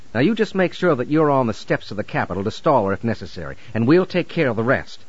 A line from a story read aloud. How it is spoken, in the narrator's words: he said harshly